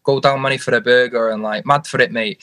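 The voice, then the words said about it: Put-on Manchester accent. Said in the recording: “they speak proper Manc talk ... And they talk a bit like that.”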